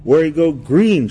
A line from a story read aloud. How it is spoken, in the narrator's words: she shouted